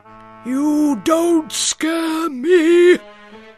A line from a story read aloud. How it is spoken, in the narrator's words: he bellowed at Daddy Goat Gruff